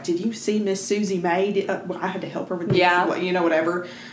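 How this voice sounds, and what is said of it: Put-on accent imitating gossiping woman. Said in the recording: “I don't know what the accent was. I slipped back into it.”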